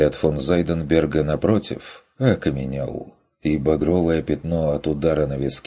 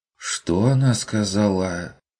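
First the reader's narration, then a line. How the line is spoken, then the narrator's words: Confused innkeeper asking again. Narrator (Russian): растерянно переспросил трактирщик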